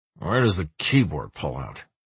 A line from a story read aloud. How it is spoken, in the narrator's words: he mutters eventually